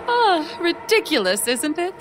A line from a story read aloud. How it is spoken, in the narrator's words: I laughed along nervously, my heart pounding